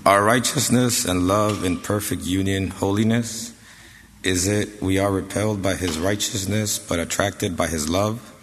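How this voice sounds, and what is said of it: Sick, strained voice. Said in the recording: “forgive my voice. I, am uh, a little bit sick.”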